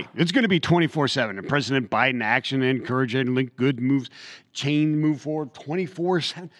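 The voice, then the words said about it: Mumbling. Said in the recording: “Why are you mumbling?”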